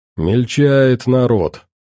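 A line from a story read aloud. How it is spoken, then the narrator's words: Grumble. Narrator (Russian): проворчал Винокур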